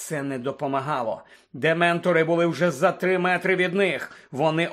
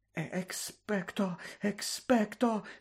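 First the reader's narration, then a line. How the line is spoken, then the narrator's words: Whispering. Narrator (Ukrainian): шепотіла поруч Герміона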